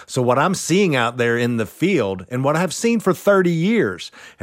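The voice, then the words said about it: East Texas Southern accent. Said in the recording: “I grew up in deep red East Texas, hence my eloquent accent”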